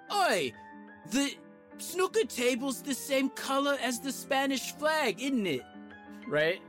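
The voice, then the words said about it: Thick British accent. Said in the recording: “I can't do accents, but in like a thick British accent”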